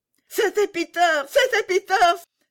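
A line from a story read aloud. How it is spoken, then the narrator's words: Joyful exclamation. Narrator (French): s'écria Gerda dans sa joie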